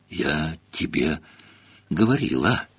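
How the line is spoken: Breathless exhale. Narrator (Russian): выдохнула Гермиона

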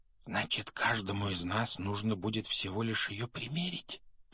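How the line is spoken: Whisper. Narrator (Russian): прошептал Рон

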